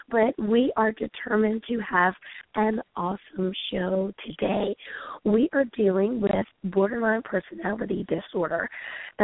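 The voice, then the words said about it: Hoarse, strained voice. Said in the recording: “as you can hear, unfortunately, I have lost my voice”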